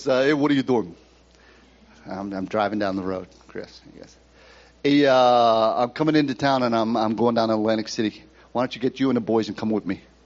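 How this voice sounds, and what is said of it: Put-on New York Brooklyn accent. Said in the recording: “he's got this uh, New York, Brooklyn accent.”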